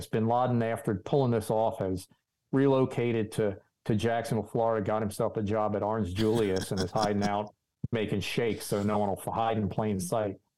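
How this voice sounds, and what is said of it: Put-on Jacksonville Florida accent. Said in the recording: “your Jacksonville accent you threw on there. Your South Florida.”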